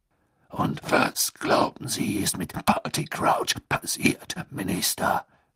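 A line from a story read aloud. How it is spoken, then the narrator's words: Growling voice. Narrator (German): ertönte Moodys knurrende Stimme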